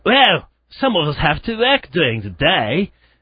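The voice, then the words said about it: Imitated voice sounding Australian. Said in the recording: “a fairly close imitation of CDS, actually ... That's actually sound Australian, didn't it?”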